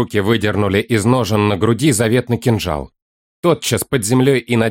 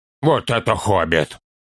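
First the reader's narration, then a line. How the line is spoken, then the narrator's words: Grumbling. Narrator (Russian): проворчал Торин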